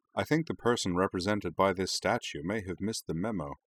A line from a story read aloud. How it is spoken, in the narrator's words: said Rory dryly